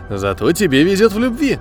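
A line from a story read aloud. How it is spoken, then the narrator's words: Laughing. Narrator (Russian): рассмеялся Быстров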